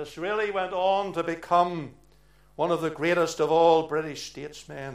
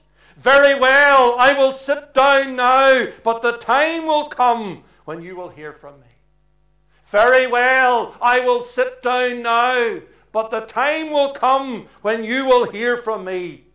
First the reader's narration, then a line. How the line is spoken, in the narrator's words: He raised his voice and he said this